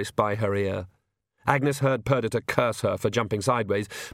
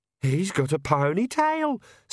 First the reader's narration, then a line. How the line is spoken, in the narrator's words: squeaked Perdita